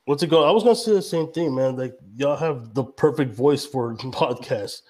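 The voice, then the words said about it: Deep voice, strong regional accent. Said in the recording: “I have a real deep voice. I have a real strong accent.”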